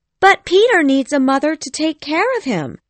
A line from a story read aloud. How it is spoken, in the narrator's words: she cried